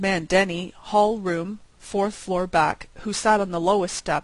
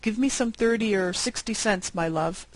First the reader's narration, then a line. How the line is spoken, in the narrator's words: said the major